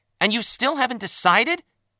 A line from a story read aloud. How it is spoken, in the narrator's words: snapped